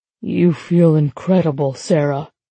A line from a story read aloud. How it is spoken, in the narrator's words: he rasps